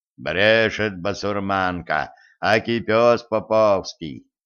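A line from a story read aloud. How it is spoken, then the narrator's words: Booming drone. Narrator (Russian): прогудел он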